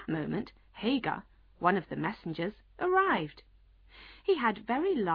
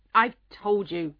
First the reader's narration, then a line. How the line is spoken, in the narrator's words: the King said crossly